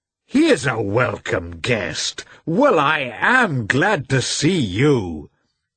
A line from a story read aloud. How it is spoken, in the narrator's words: he exclaimed, recognizing